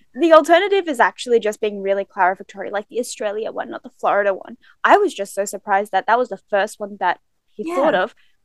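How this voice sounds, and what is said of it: Australian accent. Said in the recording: “My accent, I would say, is Australian. Not Floridian.”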